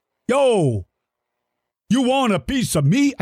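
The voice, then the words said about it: Attempted Brooklyn accent. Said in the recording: “how did Triceratops suddenly become from Brooklyn? ... I don't do a very good Brooklyn accent.”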